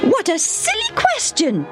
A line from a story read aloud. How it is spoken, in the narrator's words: Debbie said in her shrill voice